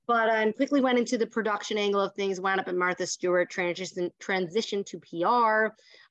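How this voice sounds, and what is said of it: Strong New York accent. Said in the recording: “nobody sounds like this on TV with this big New York accent.”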